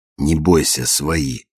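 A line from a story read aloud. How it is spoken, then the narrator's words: Whispered in Russian. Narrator (Russian): шепнул по-русски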